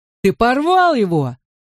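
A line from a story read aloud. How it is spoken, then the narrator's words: Angry yell. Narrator (Russian): завопил Гота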